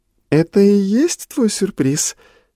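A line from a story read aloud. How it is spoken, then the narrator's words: Coquettish purr. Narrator (Russian): кокетливо мурлыкнула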